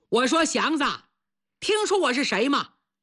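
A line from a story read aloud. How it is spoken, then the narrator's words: Calling out. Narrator (Chinese): 对方一张嘴就喊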